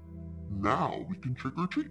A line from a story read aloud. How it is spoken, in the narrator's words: The pumpkin head croaked